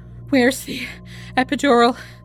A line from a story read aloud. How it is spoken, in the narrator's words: Gabriella breathed, too exhausted to speak up